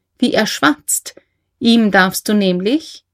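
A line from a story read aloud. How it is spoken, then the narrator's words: Laughing. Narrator (German): sagte Leni lachend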